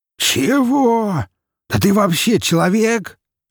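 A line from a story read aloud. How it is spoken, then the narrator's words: Surprised pig shouting. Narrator (Russian): Не скрывая своего удивления, выкрикнул свин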